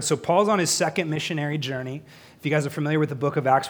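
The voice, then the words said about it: Strained voice from a cold. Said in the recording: “My voice is going to go out before the end of this teaching. I woke up with a cold the last few days”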